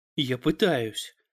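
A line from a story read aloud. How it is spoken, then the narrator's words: Snapped. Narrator (Russian): огрызнулась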